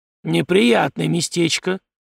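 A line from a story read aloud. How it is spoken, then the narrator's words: Grumbling. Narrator (Russian): проворчал Зимин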